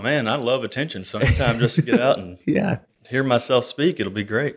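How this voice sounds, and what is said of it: Deep Southern drawl. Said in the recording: “you've got that, you know, that deep southern drawl”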